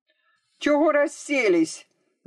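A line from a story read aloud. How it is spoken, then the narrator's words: Shouting. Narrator (Russian): закричал маленький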